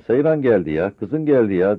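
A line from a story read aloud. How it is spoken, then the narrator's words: Plain. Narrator (Turkish): dedi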